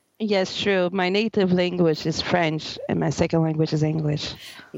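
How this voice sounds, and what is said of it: French accent in English. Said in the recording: “beautiful accent”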